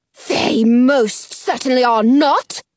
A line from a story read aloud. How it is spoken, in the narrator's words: scoffs